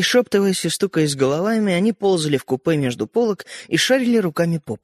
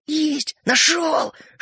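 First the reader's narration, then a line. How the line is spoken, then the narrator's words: Whispered exclamation. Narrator (Russian): шепотом воскликнул Родька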